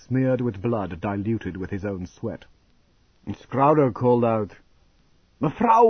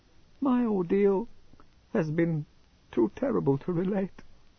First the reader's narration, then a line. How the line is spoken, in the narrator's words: she whimpered